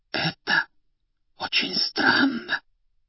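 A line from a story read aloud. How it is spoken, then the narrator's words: Whispered. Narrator (Russian): почему-то шепотом произнесла та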